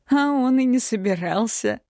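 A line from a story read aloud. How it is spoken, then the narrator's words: Laughing. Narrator (Russian): рассмеялся Ираш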